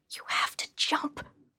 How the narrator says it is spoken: one faintly whispered

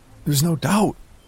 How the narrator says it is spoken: I blurted out

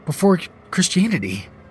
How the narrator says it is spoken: I stammered

